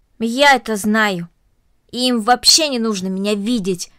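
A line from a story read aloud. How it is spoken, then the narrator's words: Angry. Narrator (Russian): сердито произнесла Карнели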